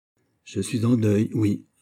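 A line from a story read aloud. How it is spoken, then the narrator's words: Plain. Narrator (French): répondit Manicamp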